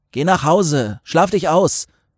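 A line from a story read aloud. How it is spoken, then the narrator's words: Calling out. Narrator (German): rief Till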